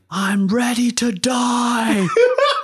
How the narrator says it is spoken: he said he ran after the jocks, screaming

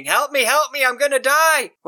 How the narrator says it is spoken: this child is running, screaming

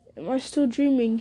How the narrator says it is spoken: he muttered

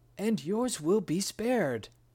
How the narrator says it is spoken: he cried

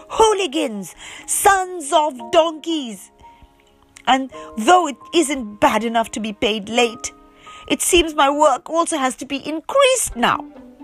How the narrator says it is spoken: in a gesture of horror and disgust, he cried

